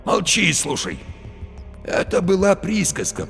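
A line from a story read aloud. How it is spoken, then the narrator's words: Hoarse wheeze. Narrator (Russian): просипел Барила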